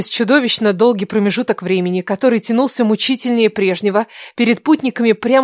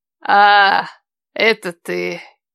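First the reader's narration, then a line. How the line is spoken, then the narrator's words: Disappointed drawl. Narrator (Russian): Разочарованно протянула она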